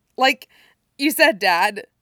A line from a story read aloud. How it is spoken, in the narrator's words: he says, choking out the words